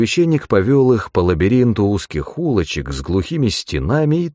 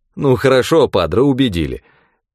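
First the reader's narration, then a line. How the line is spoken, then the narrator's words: Laughing admission. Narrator (Russian): рассмеявшись, признал Глеб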